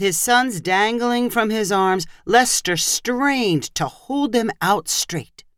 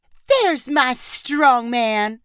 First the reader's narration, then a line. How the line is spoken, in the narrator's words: Leanne repeated in a baby voice